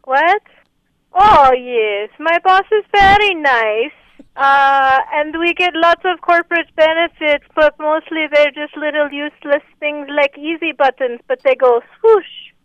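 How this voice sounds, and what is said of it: Put-on accent. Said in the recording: “my accent's from Oregon”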